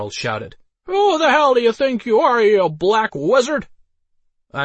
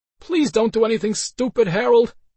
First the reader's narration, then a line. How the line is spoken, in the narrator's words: Elsa said with an annoyed sigh